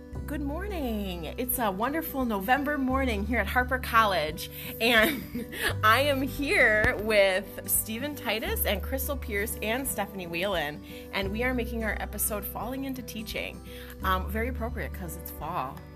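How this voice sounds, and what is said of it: Calm public-broadcasting announcer voice. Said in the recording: “doing my best PBS voice”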